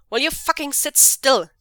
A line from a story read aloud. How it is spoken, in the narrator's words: Zheng Cheng snaps at him